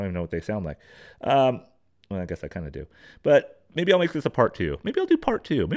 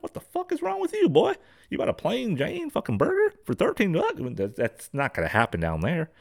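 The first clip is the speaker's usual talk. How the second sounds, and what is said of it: Bad put-on Kentucky accent. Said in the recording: “That's a bad Kentucky accent.”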